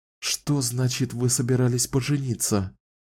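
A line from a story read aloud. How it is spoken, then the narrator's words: Words forced out with difficulty. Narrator (Russian): сумела наконец выдавить Кэлен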